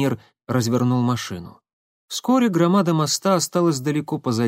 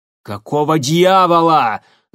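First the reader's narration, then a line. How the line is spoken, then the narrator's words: Angry bark. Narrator (Russian): злобно рявкнул Тамир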